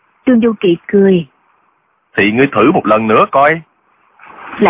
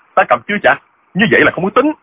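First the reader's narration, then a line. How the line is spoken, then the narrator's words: Shocked, angry. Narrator (Vietnamese): Diệu Phong Sứ cả kinh, y giận dữ nói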